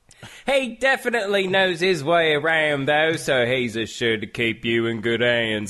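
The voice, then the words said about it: Terrible put-on Australian accent. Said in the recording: “terrible impression? ... A terrible impression? ... I just assumed your Australian friend took over the microphone for a minute.”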